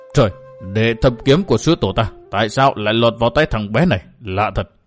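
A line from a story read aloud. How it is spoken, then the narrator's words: Startled muttering. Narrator (Vietnamese): lão tiên mù, lão giật mình lẩm bẩm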